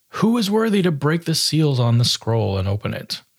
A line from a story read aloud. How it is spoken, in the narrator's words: an angel exclaimed